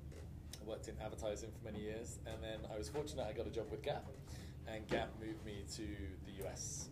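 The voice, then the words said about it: London English accent. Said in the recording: “you have a bit of an accent ... From London, originally”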